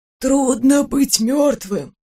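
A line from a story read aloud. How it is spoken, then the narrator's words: Mutter. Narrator (Russian): Бормотал Уйма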